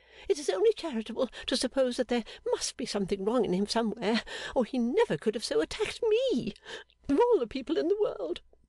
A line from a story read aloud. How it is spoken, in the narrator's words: cried Fanny piteously